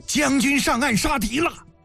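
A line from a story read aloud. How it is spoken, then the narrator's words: Crowd crying in alarm. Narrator (Chinese): 船头火海一片惊叫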